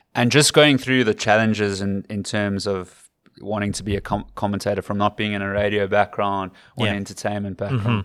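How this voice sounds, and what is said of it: South African accent. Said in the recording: “I'm familiar with the South African accent ... your accent”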